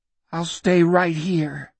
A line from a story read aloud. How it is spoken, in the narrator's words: he said bitterly